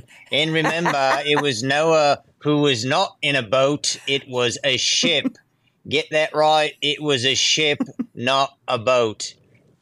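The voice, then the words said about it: Imitates another person's voice. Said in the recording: “my Ken Ham impersonation.”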